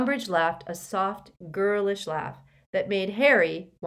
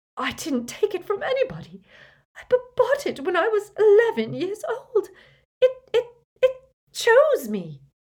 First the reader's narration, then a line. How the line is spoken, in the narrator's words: she cried harder than ever